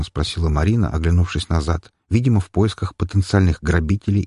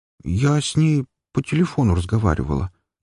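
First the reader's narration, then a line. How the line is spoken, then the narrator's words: Uncertain reply. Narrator (Russian): как-то неуверенно ответила Марина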